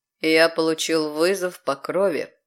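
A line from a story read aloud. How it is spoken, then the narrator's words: Cold male remark. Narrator (Russian): холодно заметил он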